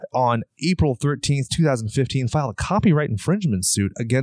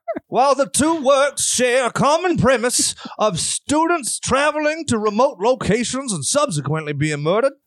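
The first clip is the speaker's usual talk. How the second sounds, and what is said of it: Put-on dignified southern British accent. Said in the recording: “More dignified. ... so I'm going to do like a little southern British.”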